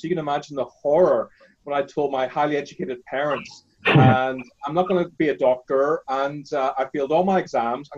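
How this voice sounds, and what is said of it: Northern Irish accent. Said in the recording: “I grew up in Northern Ireland, as you can tell by my accent.”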